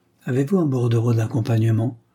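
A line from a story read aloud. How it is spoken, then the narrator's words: Neutral question. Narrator (French): demanda-t-elle d'une voix neutre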